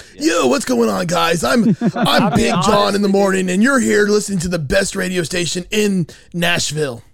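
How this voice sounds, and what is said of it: Typical morning radio DJ voice. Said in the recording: “your typical morning DJ voice”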